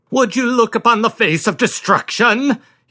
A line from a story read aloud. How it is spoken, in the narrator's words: he thundered